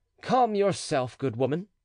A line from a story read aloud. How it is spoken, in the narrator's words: said the stranger, panting and stammering